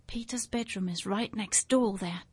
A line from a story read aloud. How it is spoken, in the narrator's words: Dan whispered back